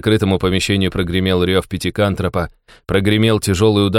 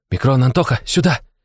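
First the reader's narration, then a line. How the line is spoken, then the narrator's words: Loud hiss. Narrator (Russian): Как можно громче прошипел я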